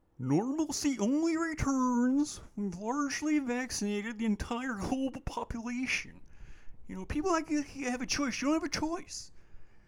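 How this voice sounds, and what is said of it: Rough impression of a public figure. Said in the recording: “that's not a great impression, but it's good enough”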